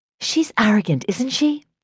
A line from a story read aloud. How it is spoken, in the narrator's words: Serena said in a loud whisper